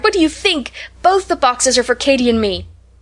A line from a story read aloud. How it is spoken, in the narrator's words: cried